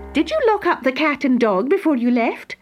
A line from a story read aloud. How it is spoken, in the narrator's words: asked sharply, though she winked an eye as she spoke